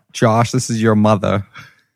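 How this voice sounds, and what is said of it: Put-on New York accent. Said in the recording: “That's my New York real, accent.”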